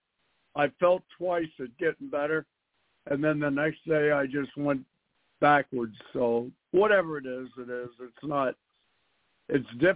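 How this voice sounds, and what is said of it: Hoarse, strained voice from illness. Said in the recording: “I'm still struggling with my voice ... I've lost my voice, but it's okay. I'm not that bad.”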